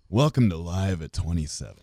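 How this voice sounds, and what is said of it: Low seductive radio announcer voice. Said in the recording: “Give me your best radio voice ... That's my, like, 10 p.m. voice. ... Less seductive”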